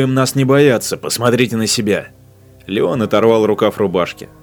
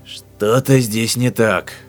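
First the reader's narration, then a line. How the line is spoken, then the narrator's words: Hoarse statement. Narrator (Russian): хрипло заявил Бартон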